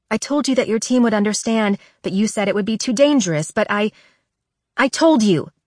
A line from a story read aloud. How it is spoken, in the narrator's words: I blurt